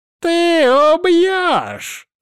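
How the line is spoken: Laughing loudly. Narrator (Russian): расхохотался он

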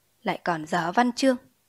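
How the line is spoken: Muttered. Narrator (Vietnamese): Người thư ký lẩm bẩm

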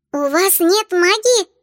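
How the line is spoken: Terrified squeaking voices. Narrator (Russian): в ужасе пропищали пикси

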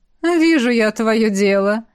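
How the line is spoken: Giggling. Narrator (Russian): Хихикнул невидимка

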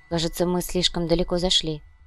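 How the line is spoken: Quiet. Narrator (Russian): тихо произнесла Верея

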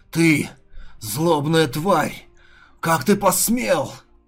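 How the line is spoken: Furious growl. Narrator (Russian): Охваченный гневом, голова прорычал

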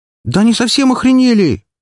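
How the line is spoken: Exclaiming. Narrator (Russian): воскликнула Валькирия

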